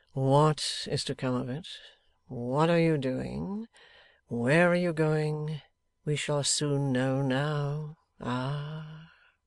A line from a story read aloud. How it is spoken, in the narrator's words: with a heavy sigh